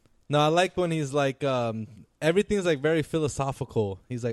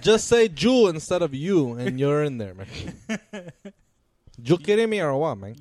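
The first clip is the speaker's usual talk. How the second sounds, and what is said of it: Exaggerated put-on Hispanic accent. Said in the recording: “do a Hispanic accent. What do Hispanic people sound like? I don't know, make something up.”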